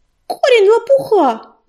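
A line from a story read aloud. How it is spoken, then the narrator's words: Yell. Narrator (Russian): завопила Белочка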